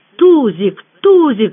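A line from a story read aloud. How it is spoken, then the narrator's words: Howled. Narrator (Russian): взвыл Севка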